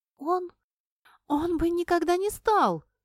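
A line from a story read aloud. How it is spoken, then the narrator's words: Exclaiming, voice breaking. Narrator (Russian): воскликнула она срывающимся голосом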